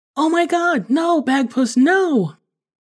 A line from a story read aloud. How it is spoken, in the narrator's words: Emily cried out